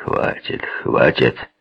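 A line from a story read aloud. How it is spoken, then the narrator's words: Threatening grumble. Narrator (Russian): пробурчал с угрозой в голосе один из полицейских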